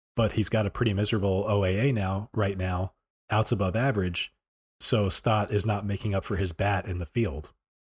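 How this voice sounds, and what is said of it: Voice worn and getting worse. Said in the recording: “my voice is getting like worse and worse the further I go in ... We've got some COVID remnants here.”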